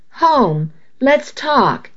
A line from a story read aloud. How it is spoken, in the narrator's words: he pleaded